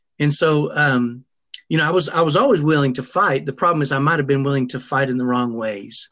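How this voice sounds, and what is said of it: Texas twang accent. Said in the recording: “I definitely hear that twang. ... I got a little bit of a ghetto Texas accent.”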